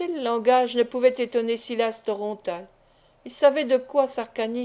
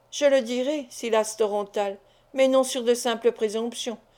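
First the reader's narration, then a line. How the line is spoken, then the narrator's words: Cold reply. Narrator (French): répondit froidement Sarcani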